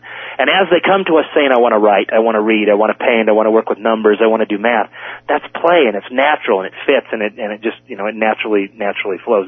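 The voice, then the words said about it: Very fast speech. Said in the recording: “sorry I'm talking so fast,”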